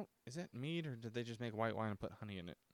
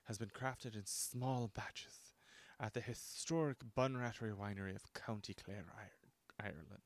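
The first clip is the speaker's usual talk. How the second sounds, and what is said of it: Poor put-on Irish accent. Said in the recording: “that's probably bad. My Irish accent is terrible.”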